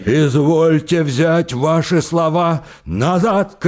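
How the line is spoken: Shout. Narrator (Russian): крикнул Самойленко

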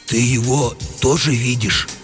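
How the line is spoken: Bewildered whisper. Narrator (Russian): растерянно спросил комендант все еще шепотом

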